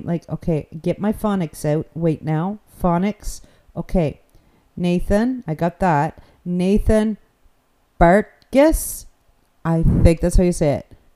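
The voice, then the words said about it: New Brunswick accent. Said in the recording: “my crazy New Brunswick accent”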